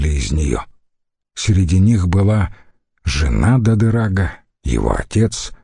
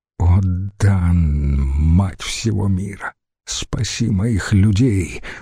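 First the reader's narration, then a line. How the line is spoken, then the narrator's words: Mutter. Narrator (Russian): бормотал Дадырак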